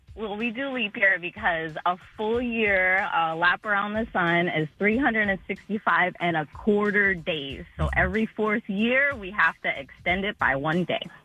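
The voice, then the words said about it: Slow, patient teacher voice. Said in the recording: “you sound like you're a teacher... you got a teacher voice... The way she slowly described it... You described it like we were a bunch of 3-year-olds.”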